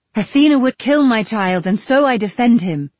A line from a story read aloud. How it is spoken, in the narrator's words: I cried